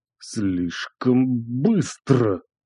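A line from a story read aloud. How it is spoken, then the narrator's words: Muffled whisper. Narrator (Russian): Глухо прошептал он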